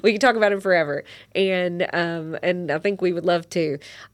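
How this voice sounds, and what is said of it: Southern brogue accent. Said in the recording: “a South Christian brogue. There's my accent coming out”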